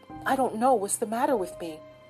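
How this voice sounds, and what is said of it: Hoarse whisper. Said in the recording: “Her voice sank to a hoarse whisper.”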